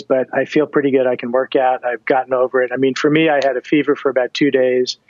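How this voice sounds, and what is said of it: Breathy voice. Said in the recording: “my voice is a little, breathy these days”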